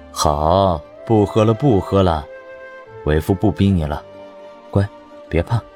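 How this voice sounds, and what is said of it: Tender, doting, soothing voice. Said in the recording (Chinese): “宠溺的嗓音”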